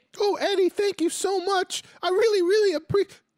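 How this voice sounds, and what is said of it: High-pitched imitated voice. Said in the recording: “high voice”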